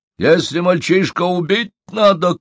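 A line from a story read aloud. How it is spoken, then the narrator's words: Shouting. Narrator (Russian): крикнул Халимба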